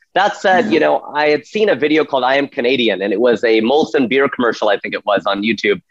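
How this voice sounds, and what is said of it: American accent. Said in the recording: “I'm very American, I'm very Americanized. You can hear it in my accent”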